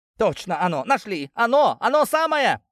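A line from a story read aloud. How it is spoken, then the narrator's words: Joyful shout. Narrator (Russian): обрадованно закричал Сафрон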